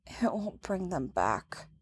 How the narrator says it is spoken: Leia mumbles to her knees

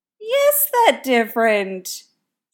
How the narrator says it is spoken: Styles says with a snort laugh

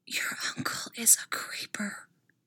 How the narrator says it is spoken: Styles whispers into the silence afterwards

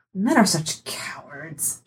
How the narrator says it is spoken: she muttered

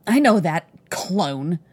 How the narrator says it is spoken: snarled

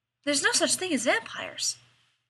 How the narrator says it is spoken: repeated happily

